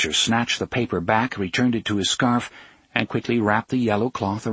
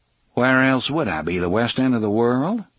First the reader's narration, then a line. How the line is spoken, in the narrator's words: The drawling voice now sounded mildly amused